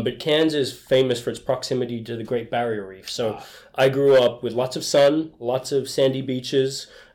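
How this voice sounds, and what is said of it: Australian accent. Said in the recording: “So this is an Australian accent.”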